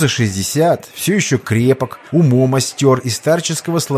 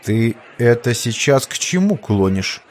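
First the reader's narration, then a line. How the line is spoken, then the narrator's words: Stern. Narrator (Russian): строго изрек Афросимов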